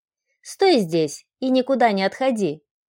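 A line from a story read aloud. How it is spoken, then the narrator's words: Stern command. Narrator (Russian): приказала строгим голосом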